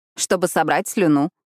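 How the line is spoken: Snort. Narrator (Russian): хмыкнула

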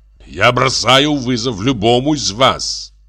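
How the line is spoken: Roaring. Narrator (Russian): взревел он

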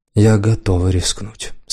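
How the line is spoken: Confident and calm. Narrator (Russian): сказал уверенно и спокойно

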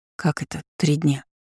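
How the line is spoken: Disbelieving whisper. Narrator (Russian): неверяще прошептала я

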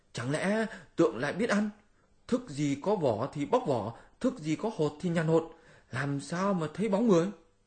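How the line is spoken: Exclaiming. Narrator (Vietnamese): Lục lực đại tiên cũng kêu lên

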